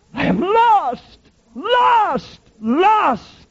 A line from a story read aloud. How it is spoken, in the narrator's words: cried the infidel Adams when dying